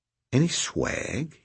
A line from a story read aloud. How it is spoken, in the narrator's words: he asked, lowering his voice